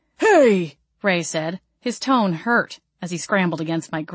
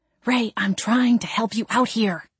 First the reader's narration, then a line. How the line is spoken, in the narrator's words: I hissed